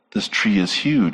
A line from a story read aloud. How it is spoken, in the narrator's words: he said